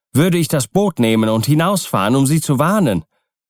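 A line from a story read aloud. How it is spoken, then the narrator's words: Indignant shout. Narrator (German): rief in voller Entrüstung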